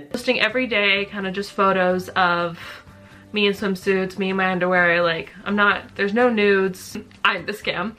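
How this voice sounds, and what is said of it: Slight Canadian accent. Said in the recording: “she has that slight Canadian accent.”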